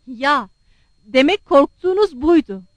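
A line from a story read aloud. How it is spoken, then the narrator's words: Cried out. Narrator (Turkish): diye haykırdı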